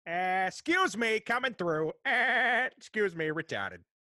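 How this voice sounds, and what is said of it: Impression of a cartoon character voice. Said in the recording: “Peter Griffin. ... That's really good. ... That was a really good impression.”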